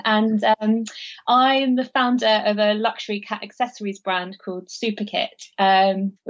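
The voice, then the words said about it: London accent. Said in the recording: “I'm based in London, as you can probably tell from the accent.”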